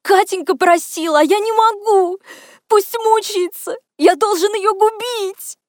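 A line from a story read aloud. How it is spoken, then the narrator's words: Sobbing. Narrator (Russian): Он всхлипывал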